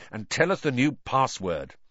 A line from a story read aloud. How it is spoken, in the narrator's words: said Ron impatiently